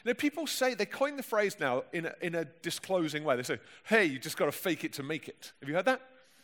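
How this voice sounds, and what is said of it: Plummy London accent. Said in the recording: “my plummy London accent's”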